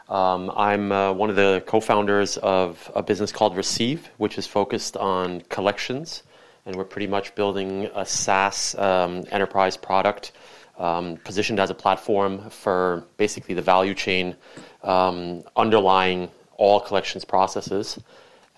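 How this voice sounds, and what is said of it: American East Coast accent. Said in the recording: “the accent is very much East Coast”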